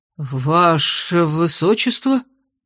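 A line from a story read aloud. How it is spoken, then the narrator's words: Hesitant trembling, forced out. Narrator (Russian): Неуверенно дрожащим голосом выдавил все тот же командующий отрядом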